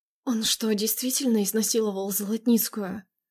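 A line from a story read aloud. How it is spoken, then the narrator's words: Whisper. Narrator (Russian): Прошептала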